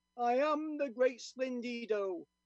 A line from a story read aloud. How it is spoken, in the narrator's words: repeated mournfully